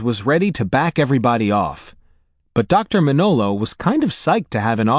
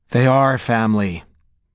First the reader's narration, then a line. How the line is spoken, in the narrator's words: Katie informed her with a sigh